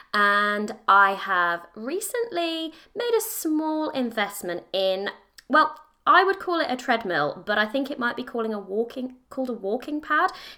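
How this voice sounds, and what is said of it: British accent. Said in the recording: “I am in the UK, as I'm sure you can probably guess by my accent.”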